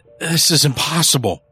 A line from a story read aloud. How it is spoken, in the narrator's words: Early stammered